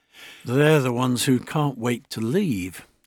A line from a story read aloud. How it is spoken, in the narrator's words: I muttered